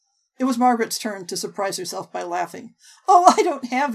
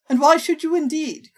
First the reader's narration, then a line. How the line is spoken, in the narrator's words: Colonel Brandon exclaimed